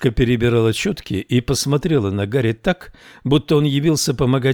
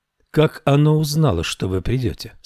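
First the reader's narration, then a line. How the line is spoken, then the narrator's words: Plain. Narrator (Russian): спросила она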